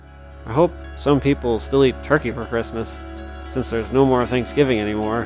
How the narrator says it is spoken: he mumbled to himself

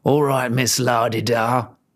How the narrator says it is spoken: growled the man

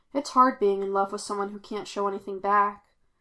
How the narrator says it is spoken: Glitch said wistfully

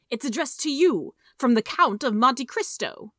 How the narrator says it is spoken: he cried

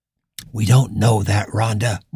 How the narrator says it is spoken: Morgan whispered back

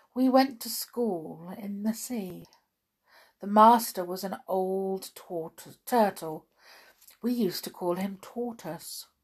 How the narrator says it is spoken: it said at last, more calmly

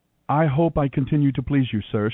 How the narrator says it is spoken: she replied

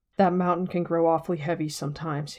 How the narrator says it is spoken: he sighed

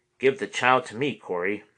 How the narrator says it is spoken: said

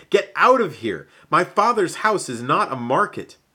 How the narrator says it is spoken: He was furious at this behavior, yelling

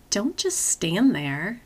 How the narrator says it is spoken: murmur softly, as if not wanting to wreck the moment

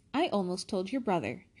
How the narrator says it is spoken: Hermione snapped

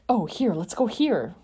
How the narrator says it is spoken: Peter exclaimed

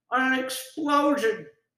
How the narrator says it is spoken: Joe cried out

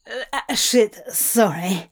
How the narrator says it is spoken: she stuttered

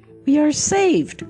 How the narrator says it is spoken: cried the prince

